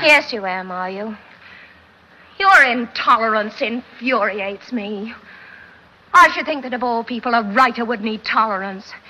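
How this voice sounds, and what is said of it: Sophisticated Katharine Hepburn accent. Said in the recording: “gives you this air of sophistication ... Probably the person most well known for this kind of accent, and I truly believe she wasn't putting it on. It was really the way she talked, and that was Katharine Hepburn.”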